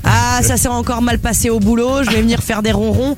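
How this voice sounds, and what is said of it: Put-on Parisian accent for cat. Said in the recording (French): “Pourquoi cet accent ... parce que le chat, il parlait comme ça ... C'est un petit parisien.”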